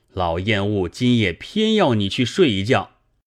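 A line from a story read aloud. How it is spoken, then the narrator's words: Stern, furious old monk. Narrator (Chinese): 老和尚怒从心上起，恶向胆边生，厉声道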